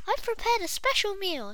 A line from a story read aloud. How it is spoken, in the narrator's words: he said excitedly